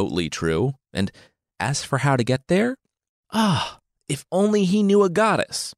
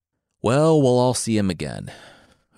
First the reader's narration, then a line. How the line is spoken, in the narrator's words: Odysseus said with a sigh